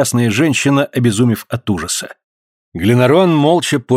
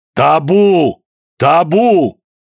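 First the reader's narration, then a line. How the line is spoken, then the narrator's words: Thunderous shout over crowd. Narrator (Russian): покрывая шум толпы, он громовым голосом крикнул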